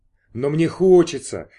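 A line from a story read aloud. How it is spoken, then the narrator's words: Sincere exclamation. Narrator (Russian): искренне воскликнул Торстейн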